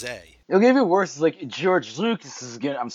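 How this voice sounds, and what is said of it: Put-on drunk voice. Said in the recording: “I'm doing a drunk voice.”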